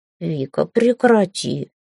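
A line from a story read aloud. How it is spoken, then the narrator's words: Cat's reproachful drawl. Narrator (Russian): укоризненно протянул кот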